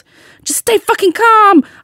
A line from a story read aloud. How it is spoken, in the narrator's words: I yelled back